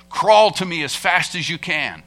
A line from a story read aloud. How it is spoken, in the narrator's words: the father roared